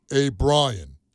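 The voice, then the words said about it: Imitates another person's voice. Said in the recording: “I'll do a micro impression of Vin Diesel”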